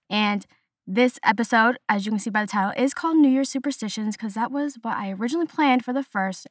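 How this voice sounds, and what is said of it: Odd, sick-sounding voice. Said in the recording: “my voice is very weird this episode. I'm still recovering from being sick.”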